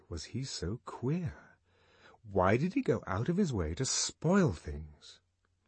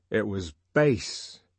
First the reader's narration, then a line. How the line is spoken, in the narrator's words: he said indignantly